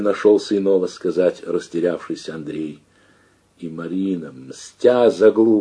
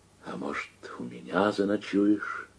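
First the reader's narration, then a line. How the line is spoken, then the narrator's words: Whispered question. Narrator (Russian): Марина шепотом спросила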